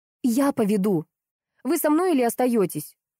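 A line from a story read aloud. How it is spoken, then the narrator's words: Angry question. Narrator (Russian): зло спросила она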